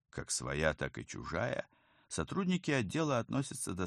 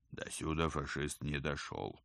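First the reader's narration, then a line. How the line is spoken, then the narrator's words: Grumbling. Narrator (Russian): пробурчал Пал Палыч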